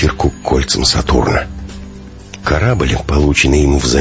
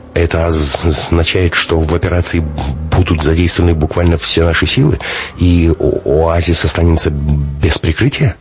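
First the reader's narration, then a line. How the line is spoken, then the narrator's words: Stammering question. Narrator (Russian): заикаясь, уточнил Дубов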